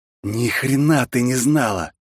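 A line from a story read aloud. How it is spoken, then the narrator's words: Hiss. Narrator (Russian): прошипел я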